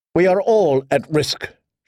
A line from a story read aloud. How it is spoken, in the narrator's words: she told him, perhaps too sharply